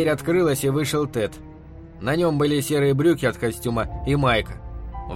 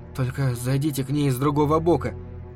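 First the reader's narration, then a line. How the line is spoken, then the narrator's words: Hoarse wheeze. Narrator (Russian): просипел Бобби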